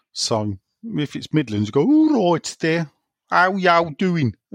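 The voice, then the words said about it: Attempted Midlands Welsh accent. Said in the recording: “I'm joining the Midlands Welsh posse. I just need to perfect my accent.”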